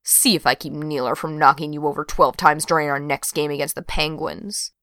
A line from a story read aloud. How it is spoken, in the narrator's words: Brenna muttered